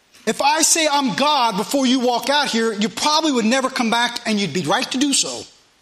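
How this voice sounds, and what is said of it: Southern US dialect. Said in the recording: “a northern boy that preaches in a southern dialect”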